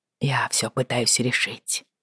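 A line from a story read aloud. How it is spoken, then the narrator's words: Quiet. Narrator (Russian): тихо сказал он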